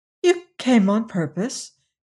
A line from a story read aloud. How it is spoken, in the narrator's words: she exclaimed, feeling in truth somewhat awestruck